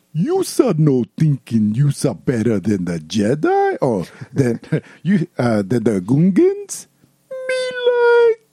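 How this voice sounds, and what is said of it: Boss Nass impression. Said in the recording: “my Boss Ness impression”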